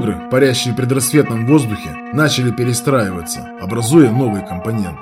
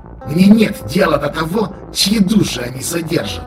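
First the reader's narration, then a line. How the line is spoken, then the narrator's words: Sharp hiss. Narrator (Russian): резко прошипел Шор-Шех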